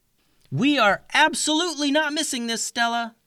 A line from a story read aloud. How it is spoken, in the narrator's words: yelled Clover